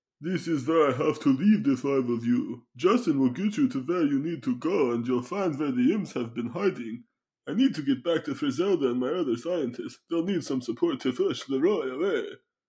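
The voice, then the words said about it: Put-on accent imitating Vlad. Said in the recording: “I don't appreciate the accent, but is that how I sound when I talk, really?”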